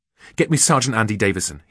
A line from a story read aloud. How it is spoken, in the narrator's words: he snapped